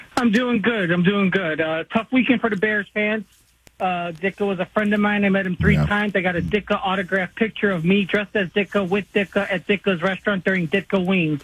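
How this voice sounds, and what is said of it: Thick accent like an SNL skit. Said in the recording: “you sounded like an SNL skit right there, pal ... when I get sad and excited, the accent comes out a little more”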